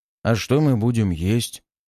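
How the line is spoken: Sad remark. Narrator (Russian): как-то грустно подметил Илья

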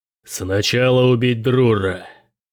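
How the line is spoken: Growling. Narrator (Russian): прорычал генерал Верит

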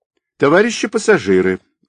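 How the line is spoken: Loud female announcement. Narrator (Russian): громко объявил женский голос

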